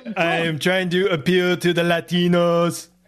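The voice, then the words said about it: Imitates another person's voice, adopted accent. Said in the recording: “Your Trump impression is getting better ... Mr. Trump, did you just adopt an accent of some sort? ... You sound like Arnold Schwarzenegger right now.”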